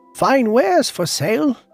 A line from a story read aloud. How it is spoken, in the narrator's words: she called out